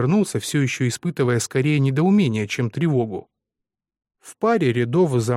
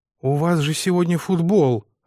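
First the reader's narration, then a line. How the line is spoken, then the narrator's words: Breathless exhale. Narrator (Russian): выдохнул я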